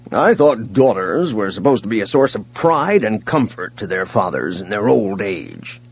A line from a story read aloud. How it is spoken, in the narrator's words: he grumbled